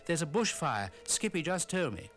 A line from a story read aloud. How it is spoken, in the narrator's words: Sonny shouted as he ran into the office